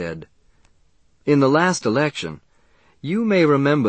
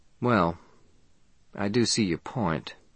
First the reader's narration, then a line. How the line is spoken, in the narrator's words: the woman said dryly